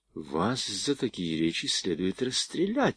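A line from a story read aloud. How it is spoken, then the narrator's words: Quiet. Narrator (Russian): тихо проговорил он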